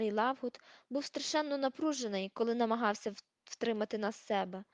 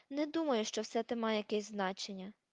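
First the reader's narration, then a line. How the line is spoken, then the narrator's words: Sighing. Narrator (Ukrainian): зітхнула Герміона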